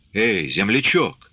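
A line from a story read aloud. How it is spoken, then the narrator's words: Hoarse whisper. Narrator (Russian): засипел шепотом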